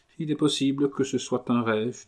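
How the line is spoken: Sad. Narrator (French): dit tristement Rose de Noël

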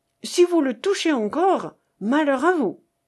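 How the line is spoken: Exclaiming. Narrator (French): s'écrie Gauvain

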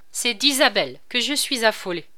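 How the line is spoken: Curt, cutting tone. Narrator (French): dit le duc d'un petit ton sec qu'il savait prendre admirablement et qui tranchait tout

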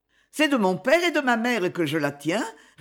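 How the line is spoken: Quick reply. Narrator (French): répondit vivement mademoiselle Cornélie

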